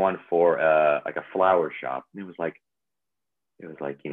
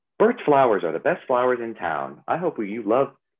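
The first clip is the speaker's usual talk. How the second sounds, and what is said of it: Bubbly, upbeat voice. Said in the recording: “it sounds really like bubbly and not really how I talk”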